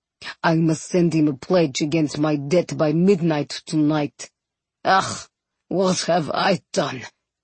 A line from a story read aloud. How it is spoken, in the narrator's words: Groaning